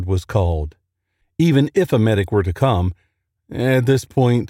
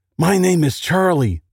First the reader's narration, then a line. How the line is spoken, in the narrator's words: the young soldier shouted